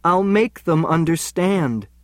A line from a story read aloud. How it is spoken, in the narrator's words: I pleaded